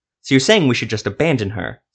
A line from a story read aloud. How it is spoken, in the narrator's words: Silva snapped